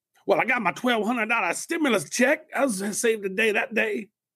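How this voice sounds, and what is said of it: Put-on comic barber character accent. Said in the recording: “What's with the accent? What is that? ... That's my save the day accent ... it was kind of reminiscent of Eddie Murphy as a barber in Coming to America”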